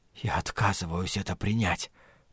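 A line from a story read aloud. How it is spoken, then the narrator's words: Whisper. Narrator (Russian): прошептал Ларри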